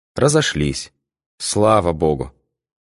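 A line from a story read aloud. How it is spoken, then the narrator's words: Relieved sigh. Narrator (Russian): С облегчением вздохнула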